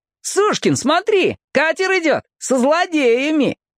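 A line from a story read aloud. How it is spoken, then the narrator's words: Shouting. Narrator (Russian): Касьян кричал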